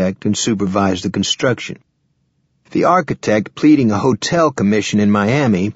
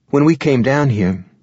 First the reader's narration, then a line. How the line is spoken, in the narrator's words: Lavinia said